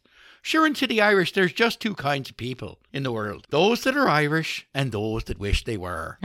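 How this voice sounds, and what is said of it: Put-on Irish accent. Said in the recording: “Not bad. ... Good Irish accent.”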